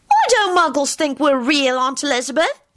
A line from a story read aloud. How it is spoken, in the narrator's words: Teddy asked loudly